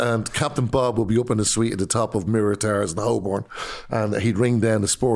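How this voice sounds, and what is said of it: Usual voice. Nothing is said of it.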